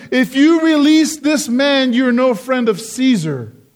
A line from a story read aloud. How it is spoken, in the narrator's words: the Jews cried out saying